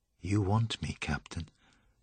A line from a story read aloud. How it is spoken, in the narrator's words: she whispered